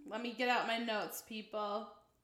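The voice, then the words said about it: Yelling. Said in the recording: “I don't know why I'm yelling.”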